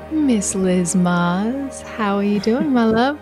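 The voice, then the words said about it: Smooth radio host voice. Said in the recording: “I shift into my radio voice when I hit record”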